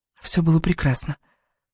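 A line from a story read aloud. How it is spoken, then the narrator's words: Hoarse whisper close to ear. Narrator (Russian): хрипло прошептала Элис, приближая свой рот к его уху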